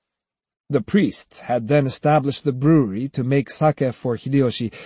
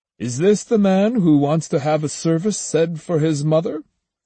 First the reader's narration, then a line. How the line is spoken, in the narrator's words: asked in a friendly voice